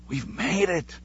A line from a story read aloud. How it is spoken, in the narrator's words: Claudia whispered joyfully